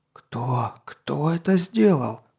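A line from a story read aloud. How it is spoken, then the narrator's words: Whisper. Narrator (Russian): прошептал Грохолокс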